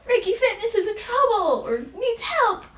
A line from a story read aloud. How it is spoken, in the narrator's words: Ricky shouts out